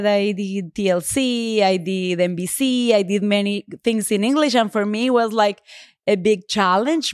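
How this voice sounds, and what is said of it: Colombian Spanish accent in English. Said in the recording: “like your accent ... I'm really proud of my Colombian roots ... my accent is just a reminder that I'm not from here”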